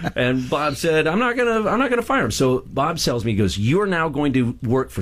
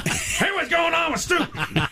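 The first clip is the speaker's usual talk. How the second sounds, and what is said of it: Imitates another person's voice. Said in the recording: “not a very good Scott Shannon impression”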